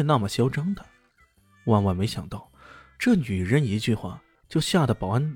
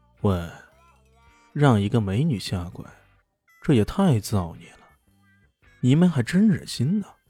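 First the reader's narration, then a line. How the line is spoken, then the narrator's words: Calm, indifferent. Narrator (Chinese): 有个人淡淡的说道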